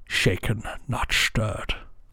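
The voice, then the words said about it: Bad Sean Connery impression, muffled. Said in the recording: “A terrible impression of Sean ... just Connery. Sounded like you just had tissues in your mouth.”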